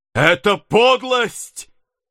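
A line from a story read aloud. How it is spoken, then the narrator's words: Exclaiming, repeatedly. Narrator (Russian): воскликнул Недленд чуть ли не в 20-й раз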